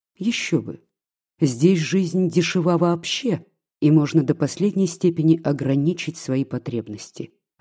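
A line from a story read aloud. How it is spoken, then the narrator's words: Plain. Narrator (Russian): ответил он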